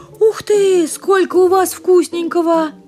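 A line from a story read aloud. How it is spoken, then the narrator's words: Exclaimed. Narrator (Russian): Воскликнула она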